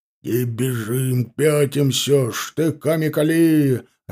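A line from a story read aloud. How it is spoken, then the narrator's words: Barked shout, sturdy sergeant. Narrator (Russian): рявкнул крепкий унтер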